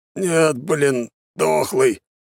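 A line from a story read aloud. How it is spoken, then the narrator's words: Grumbling. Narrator (Russian): проворчал он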